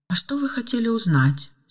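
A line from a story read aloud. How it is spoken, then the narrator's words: Calm and quiet. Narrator (Russian): спокойно и тихо ответила Ева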